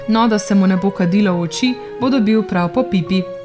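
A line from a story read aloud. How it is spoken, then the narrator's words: Laughing young man. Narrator (Slovenian): se je zasmejal hlapčev sin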